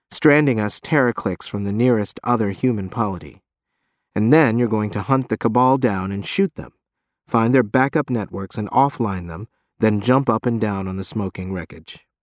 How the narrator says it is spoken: he says calmly

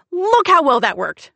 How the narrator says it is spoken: she shouted

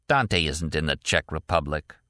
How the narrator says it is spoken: Quest said flatly

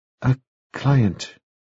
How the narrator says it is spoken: she said at last, and in a smaller voice

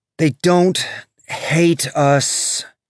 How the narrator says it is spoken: Bobby said, her voice tired

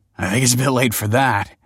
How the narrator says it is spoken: laughed Michael bitterly

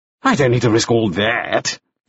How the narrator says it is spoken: Lauderback said scornfully

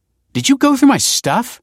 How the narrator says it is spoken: snapped

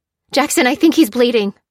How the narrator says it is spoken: she cried

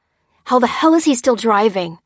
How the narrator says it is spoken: cried Dan, gasping for breath

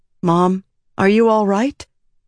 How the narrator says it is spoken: Miriam asked anxiously

